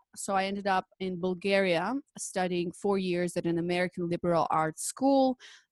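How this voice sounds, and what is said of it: Mixed foreign English accent. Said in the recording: “you can see by my accent, it's like a weird combination of everything”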